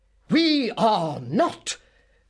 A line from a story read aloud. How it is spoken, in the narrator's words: roared Mr